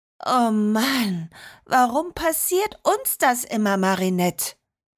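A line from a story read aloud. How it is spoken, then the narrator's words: Sighed. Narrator (German): seufzte Liliana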